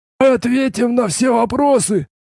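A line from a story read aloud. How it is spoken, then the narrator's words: Hoarse voice. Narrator (Russian): хрипло произнес один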